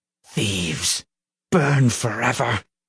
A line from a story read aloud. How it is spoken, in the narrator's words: he hissed